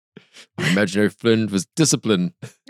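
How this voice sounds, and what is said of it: Put-on German accent. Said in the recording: “A little German accent makes it sound more serious.”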